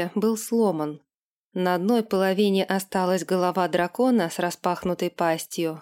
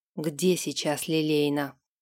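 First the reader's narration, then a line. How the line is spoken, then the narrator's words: Hoarse question. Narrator (Russian): хрипло спросил Дерек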